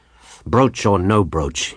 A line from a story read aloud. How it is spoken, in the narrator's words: he growled sulkily